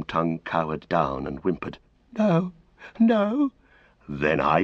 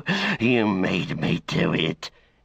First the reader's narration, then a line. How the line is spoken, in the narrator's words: he hissed